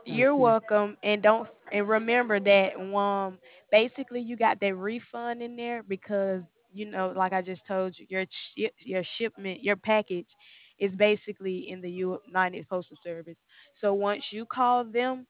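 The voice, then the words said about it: Alabama accent. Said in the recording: “are you from North Carolina? ... Alabama. ... To figure out your accent.”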